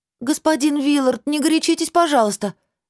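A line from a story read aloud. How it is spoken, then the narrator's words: Bewildered pleading. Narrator (Russian): Взмолилась я, недоумевая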